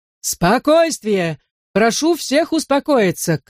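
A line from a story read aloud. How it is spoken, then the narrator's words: Shouting. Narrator (Russian): кричал мэр Своуп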